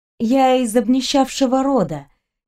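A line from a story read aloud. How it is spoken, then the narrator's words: Gentle smiling. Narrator (Russian): мягко улыбнулась я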